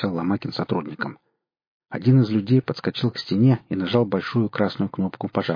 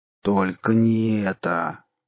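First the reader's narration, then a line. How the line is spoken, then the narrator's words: Groan. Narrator (Russian): простонал Кудыкин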